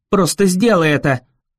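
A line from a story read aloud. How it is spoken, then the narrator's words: Barking. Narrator (Russian): рявкнула она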